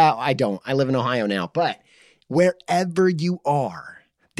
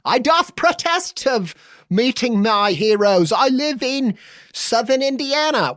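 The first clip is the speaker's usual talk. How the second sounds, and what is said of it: Mock put-on accent. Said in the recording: “What is that accent?”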